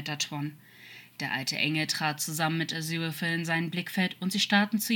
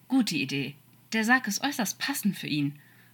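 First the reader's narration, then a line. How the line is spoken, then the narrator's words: Cool remark. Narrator (German): meinte Seewürfel kühl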